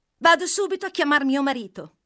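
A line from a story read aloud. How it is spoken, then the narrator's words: Exclaiming. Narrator (Italian): esclamò la tedeschina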